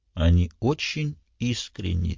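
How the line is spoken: Quiet. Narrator (Russian): тихо сказала Марго

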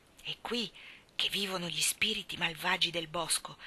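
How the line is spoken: Whispered. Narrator (Italian): bisbigliò Anna

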